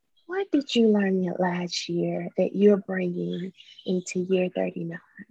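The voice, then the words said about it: Calm therapist-style voice. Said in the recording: “put on my therapist voice”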